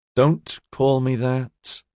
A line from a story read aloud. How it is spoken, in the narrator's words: Ediard said wearily